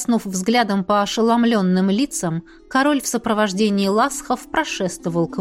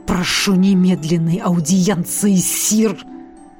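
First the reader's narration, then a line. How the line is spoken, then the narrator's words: Menacing growl. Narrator (Russian): С угрозой прорычал Тарре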